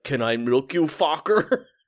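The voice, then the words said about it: Imitation with a really heavy accent. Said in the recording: “Zelensky in a really heavy accent”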